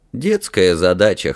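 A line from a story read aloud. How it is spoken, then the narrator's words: Snorting. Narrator (Russian): хмыкнул принц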